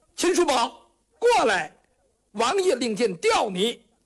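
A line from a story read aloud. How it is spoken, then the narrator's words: Shouting. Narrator (Chinese): 张子燕在那就喊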